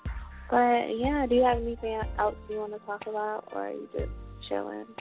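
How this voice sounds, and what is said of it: Deep, congested sick voice. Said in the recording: “I have a cold ... I sound like a man right now ... I sound like a man”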